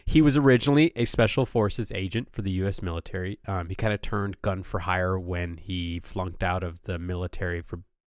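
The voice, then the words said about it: Strained, failing voice. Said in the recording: “My voice is already giving out.”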